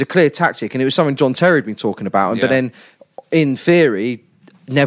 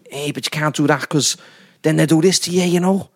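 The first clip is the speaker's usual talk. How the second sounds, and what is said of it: Put-on Scouse accent, almost passable. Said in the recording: “he's certainly gone and done a Scouse accent. That was almost bearable. ... It was almost quite good.”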